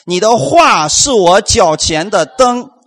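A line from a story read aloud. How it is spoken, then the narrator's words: Loud group reading. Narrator (Chinese): 一起大声来读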